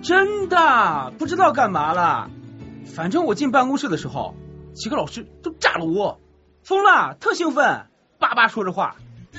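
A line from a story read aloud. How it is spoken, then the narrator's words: Clear, gossipy. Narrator (Chinese): 学习委员的声音清晰地传过来，透着一股八卦的气息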